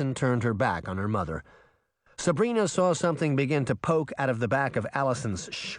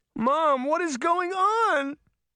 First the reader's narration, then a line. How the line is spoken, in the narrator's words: Allison sobbed